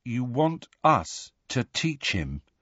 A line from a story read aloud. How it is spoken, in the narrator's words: Harry said in a hollow voice